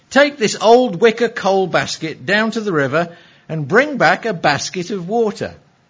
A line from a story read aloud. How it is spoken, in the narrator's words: The grandfather quietly said